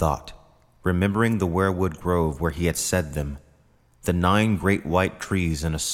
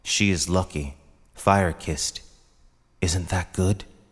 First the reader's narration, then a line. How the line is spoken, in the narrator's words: whispered